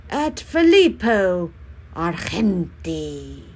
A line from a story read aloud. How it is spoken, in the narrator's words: They all were shouting